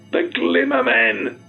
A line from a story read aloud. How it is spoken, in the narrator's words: Craig almost shrieked